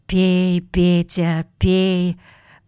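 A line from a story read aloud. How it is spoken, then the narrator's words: Joyful whisper. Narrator (Russian): радостно зашептал Иннокентий, увидев, что друг приободрился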